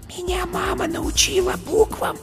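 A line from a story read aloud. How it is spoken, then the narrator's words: Whispering small animal. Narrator (Russian): шепотом сказала зайка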